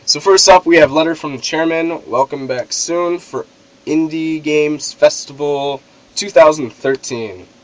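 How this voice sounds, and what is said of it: Sick, weakened voice. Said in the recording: “I am sick right now, and my voice is a bit out ... my voice is bad”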